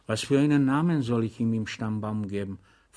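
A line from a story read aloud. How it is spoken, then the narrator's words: Plain question. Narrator (German): fragte Blahnik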